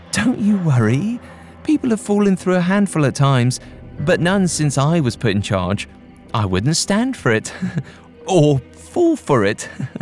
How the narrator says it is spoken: she assured us

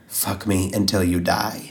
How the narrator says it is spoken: she whispered

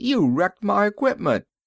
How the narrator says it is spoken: Bullethead yelled

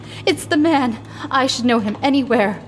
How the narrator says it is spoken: cried in a voice that sounded in her own ears like a scream

